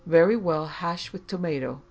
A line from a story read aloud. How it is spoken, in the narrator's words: So I sighed and said